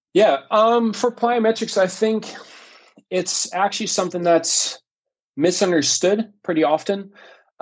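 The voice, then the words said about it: Dutch speaker with fairly American accent. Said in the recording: “If you wouldn't know that I'm Dutch ... You disguise it with a fairly American accent”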